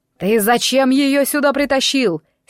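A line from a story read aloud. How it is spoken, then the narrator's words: Angry shout. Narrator (Russian): сердито крикнул Кощей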